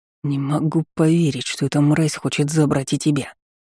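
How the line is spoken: Hissed. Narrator (Russian): прошипел брат

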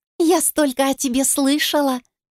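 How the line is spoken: Joyful, smiling. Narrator (Russian): продолжала радостно улыбаться Ника

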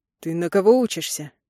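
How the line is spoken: Rasped. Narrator (Russian): Прохрипел я

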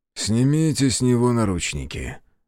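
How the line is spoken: Sighing. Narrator (Russian): вздохнул Сабуров

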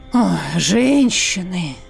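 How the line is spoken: Heavy sigh, sorcerer. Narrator (Russian): тяжко вздохнул чародей

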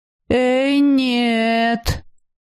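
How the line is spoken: Drawling. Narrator (Russian): протянул рыжий

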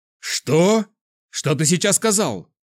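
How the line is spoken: Sudden roar. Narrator (Russian): мгновенно взревел Кирилл

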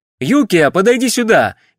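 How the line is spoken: Shouted in Japanese. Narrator (Russian): крикнул он по-японски

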